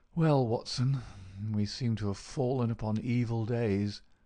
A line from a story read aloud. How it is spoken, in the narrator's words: said he in a feeble voice, but with something of his old carelessness of manner